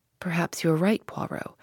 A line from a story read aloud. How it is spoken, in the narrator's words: I said gently